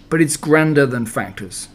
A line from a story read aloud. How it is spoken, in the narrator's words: as Pooh seemed disappointed, he added quickly